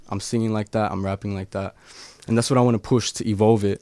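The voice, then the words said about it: Australian accent. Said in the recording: “as an Aussie ... the way that I speak my accent”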